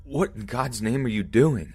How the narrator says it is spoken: shouted

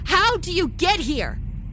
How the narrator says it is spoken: Paula shouted the questions

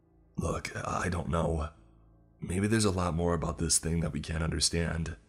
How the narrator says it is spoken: he sighed

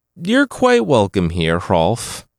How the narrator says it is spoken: Hrigvid said

